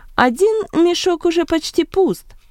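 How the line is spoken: Exclamation. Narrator (Russian): воскликнул Варнава

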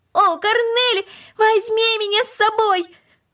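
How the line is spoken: Increasingly loud shouting. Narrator (Russian): Макс кричал все громче и громче

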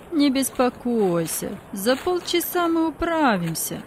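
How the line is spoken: Conciliatory tone. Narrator (Russian): примирительным тоном сказал другой

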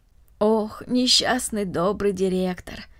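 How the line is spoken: Sighing. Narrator (Russian): вздохнула Марта

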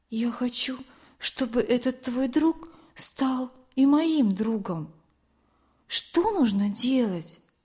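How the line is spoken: Quiet whisper. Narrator (Russian): она тихо прошептала

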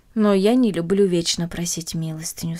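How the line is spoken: Plain. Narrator (Russian): сказала она матери

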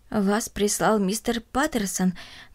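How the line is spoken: Trembling elderly voice. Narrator (Russian): дрожащим голосом спросила бабушка

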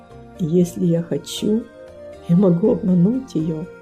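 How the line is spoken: Quiet, to himself. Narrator (Russian): Он тихо произнес, как будто про себя

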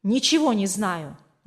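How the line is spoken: Irritated reply. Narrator (Russian): раздраженно ответил тот

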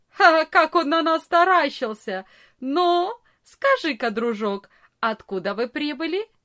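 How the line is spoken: Loud laughing. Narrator (Russian): самый большой из ребят громко не засмеялся и не сказал

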